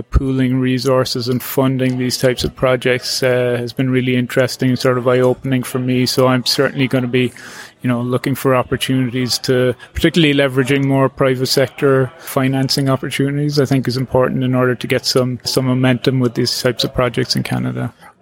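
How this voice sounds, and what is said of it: Irish accent. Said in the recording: “he's from Canada, but what's up with that accent? ... I'm from Cork in Ireland.”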